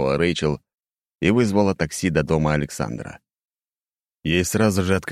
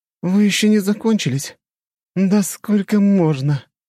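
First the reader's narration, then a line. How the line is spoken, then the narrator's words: Groan. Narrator (Russian): простонала богиня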